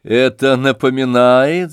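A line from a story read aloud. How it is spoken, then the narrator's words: Laughing. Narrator (Russian): засмеялся Евгений Павлович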